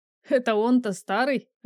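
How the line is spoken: Laughing loudly. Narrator (Russian): расхохотался Артур

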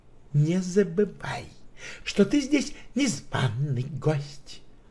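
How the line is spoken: Hissing. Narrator (Russian): прошипела она

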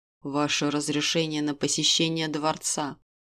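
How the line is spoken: Otherworldly voice. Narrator (Russian): Все тем же потусторонним голосом пояснила сущность

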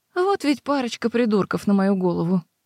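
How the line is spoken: Sighing. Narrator (Russian): вздохнула Дейдра

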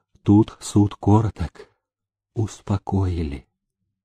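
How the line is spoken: Quiet, emotionally overwhelmed. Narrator (Russian): Сердце служивого не выдержало, и однажды он тихо молвил на ходу

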